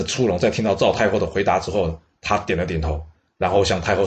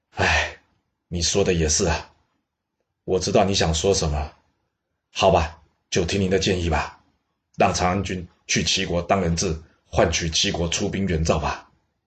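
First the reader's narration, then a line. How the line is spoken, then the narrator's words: Sighing. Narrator (Chinese): 这赵太后听完之后，她叹口气说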